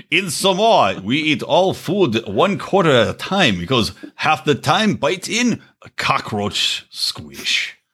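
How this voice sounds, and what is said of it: Poorly done put-on Samoan accent. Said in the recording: “accent that's supposed to be. ... Not good. ... I started off having a good accent and I lost it.”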